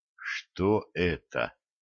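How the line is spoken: Whisper. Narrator (Russian): прошептал Валентин

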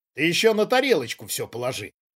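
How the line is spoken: Snorting. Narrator (Russian): хмыкнул Давидовский

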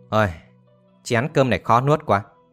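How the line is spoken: Weary sigh. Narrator (Vietnamese): thở dài nói tiếp

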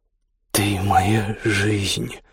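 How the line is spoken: Hoarse whisper at ear. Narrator (Russian): прошептал над ухом хриплый голос

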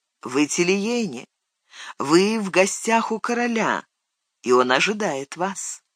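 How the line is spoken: Gentle voice from behind. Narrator (Russian): Чей-то голос ласково произнес позади него

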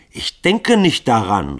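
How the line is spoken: Called out. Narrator (German): rief Grunja

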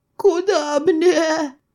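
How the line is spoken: Thin womanish offended voice. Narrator (Russian): Тоненьким бабьим голосочком оскорбился Радомир

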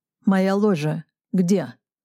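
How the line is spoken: Curt question. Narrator (Russian): спросил отрывисто

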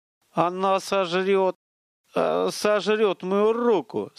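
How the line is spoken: Utterly lost voice. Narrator (Russian): Совершенно потерянным голосом повторил Столяров

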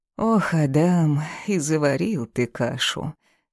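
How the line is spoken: Heavy sigh. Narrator (Russian): тяжело вздохнула

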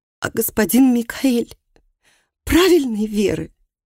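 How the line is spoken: Hoarse, sobbing question. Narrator (Russian): Хриплым от рыданий голосом она спросила

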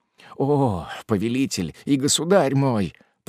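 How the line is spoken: Old man moaning. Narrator (Russian): простонал старик

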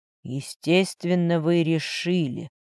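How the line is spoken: Muffled reply. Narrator (Russian): глухо отозвался Матвей

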